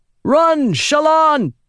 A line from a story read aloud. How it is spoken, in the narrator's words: Adolin shouted